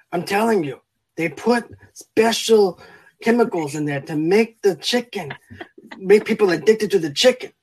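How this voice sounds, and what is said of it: Put-on accent sounding Mexican. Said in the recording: “I sound like a Mexican rather than Scottish. Wrong accent.”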